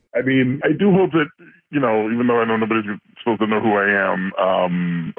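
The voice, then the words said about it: Electronically disguised voice, sounds down. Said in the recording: “you sound a little down and out there ... That's just the voice changer.”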